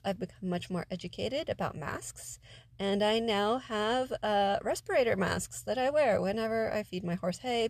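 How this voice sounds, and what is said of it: Nasal, congested voice. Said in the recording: “my voice sounds nasally, it's because of these persistent allergy issues”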